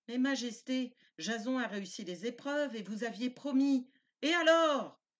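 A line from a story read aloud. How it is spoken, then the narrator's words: Shout. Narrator (French): cria Aétès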